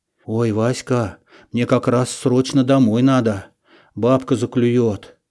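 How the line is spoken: Unsure mumble. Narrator (Russian): неуверенно пробормотал я

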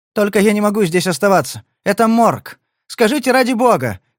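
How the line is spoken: Shouted. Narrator (Russian): крикнула

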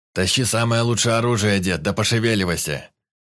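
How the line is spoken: Barked by burly man. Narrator (Russian): Гаркнул здоровенный наемник

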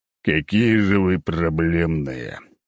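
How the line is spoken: Groaning. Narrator (Russian): простонал я

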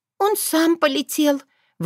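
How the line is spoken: Breathy exhale. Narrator (Russian): выдохнула Карина

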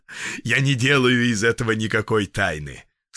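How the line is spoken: Laughing. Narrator (Russian): сказал он, смеясь

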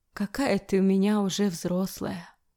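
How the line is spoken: Sobbing. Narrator (Russian): всхлипывает

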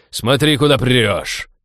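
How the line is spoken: Barking. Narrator (Russian): рявкнул Фрианин

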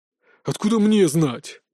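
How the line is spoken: Angry growl. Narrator (Russian): прорычал Тимофей, со злостью вспоминая унижение, испытанное перед Георгием

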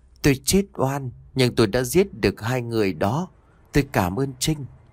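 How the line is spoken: Soft voice. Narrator (Vietnamese): một giọng nói khẽ vang lên

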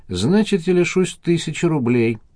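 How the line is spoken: Sad reply. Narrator (Russian): грустно ответил Николай

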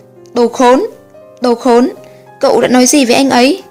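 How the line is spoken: Furious loud shout. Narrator (Vietnamese): Thoát đã không còn vẻ yên lặng hài hòa bấy lâu, vừa túm chặt áo cậu ta, tay đấm chân đá túi bụi vừa hét lớn

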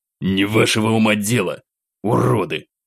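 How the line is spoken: Fighter's growl. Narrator (Russian): Прорычал боец

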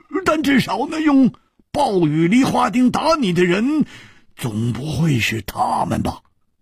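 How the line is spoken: Sudden loud voice. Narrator (Chinese): 胡铁花忽然大声地说

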